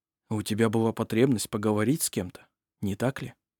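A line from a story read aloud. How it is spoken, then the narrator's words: Quiet question. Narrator (Russian): тихо спросил Арф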